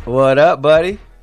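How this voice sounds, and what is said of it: Raspy voice. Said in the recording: “raspy voice”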